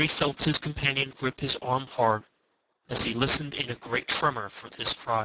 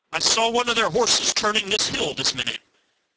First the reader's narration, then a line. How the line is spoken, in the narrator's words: he cried aloud